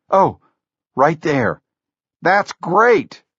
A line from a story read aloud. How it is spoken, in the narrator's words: Jobs yelled